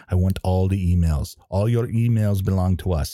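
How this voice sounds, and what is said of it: Put-on accent. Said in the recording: “I don't know why I'm using that accent.”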